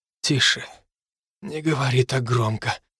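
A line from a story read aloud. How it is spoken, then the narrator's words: Whisper. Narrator (Russian): прошептал он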